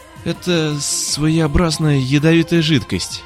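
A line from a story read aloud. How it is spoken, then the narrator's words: Timid hesitant start. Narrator (Russian): наконец робко начал Дон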